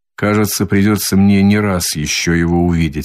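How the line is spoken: Plain. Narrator (Russian): сказал он Дуне

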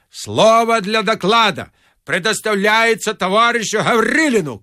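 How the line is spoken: Shout. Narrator (Russian): крикнул Гаврилин

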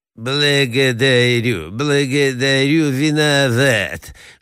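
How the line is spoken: Lisping. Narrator (Russian): шепелявит князь

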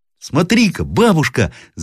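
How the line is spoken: Boy shouting. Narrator (Russian): закричал мальчик

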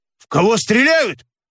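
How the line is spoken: Shouting. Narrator (Russian): закричал Никита Псов

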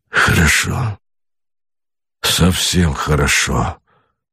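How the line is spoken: Muttering. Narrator (Russian): бормотал Богомолов

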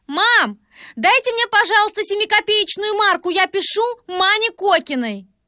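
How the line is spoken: Called to next room. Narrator (Russian): крикнула в соседнюю комнатушку

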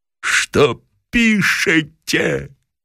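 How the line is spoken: Tearful shout. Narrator (Russian): кричал плачущим голосом

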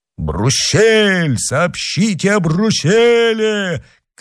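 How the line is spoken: Crowd shouting. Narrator (Russian): кричала толпа

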